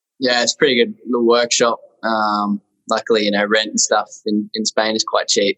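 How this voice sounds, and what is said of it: Friendly accent from far away. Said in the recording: “a friendly accent, mate ... From the other side of the world”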